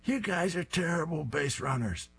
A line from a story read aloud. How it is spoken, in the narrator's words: Fang is screaming